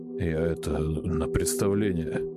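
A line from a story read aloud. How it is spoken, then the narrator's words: Hoarse. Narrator (Russian): хрипло сказал Васька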